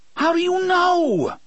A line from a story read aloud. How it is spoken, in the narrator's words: Eddie screams at him in sudden frustration